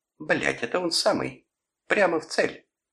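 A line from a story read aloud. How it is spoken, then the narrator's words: Exclaimed. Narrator (Russian): сестра воскликнула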